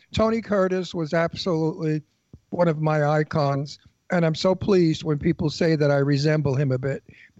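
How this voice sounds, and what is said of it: Husky New York accent. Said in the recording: “same New York accent, same husky voice.”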